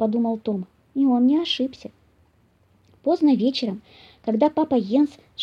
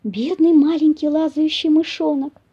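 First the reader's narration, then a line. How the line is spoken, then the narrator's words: Mother squirrel exclaiming. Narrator (Russian): воскликнула бельчиха мама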